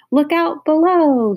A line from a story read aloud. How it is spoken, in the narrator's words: he shouted, as he went over the edge